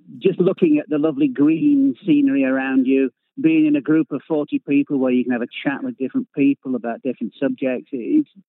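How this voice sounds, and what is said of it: Yorkshire English accent. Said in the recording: “we can tell from your accent that you're not from these parts ... are you Lancashire, Yorkshire? ... I'm actually Yorkshire.”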